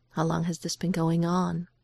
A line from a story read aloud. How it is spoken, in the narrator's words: says, keeping his voice as gentle as he can